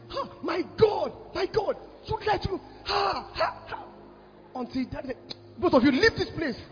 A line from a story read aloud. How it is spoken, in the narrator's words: I was shouting